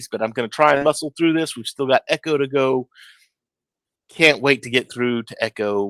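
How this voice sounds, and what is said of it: Sick, congested voice. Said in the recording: “never seen so much mucus. I don't know how a sinus cavity can hold that much mucus ... If you can't tell by my voice, I am been a little bit ill the last couple of days”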